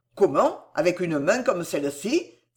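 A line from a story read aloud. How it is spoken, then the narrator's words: Exclaiming. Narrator (French): s'écria le docteur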